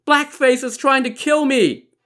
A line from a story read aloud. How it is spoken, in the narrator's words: scream